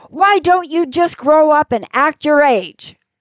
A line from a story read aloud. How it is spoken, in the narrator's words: explode and shout to all the kids